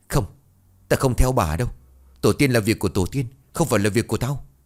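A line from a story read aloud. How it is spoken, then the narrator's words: Terrified, trembling. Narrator (Vietnamese): Lão Đoài kinh hãi run rẩy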